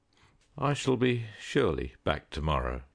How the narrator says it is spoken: he said

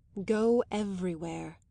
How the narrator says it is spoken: he said at last in a low, kind voice

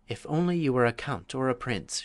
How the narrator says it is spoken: sighed

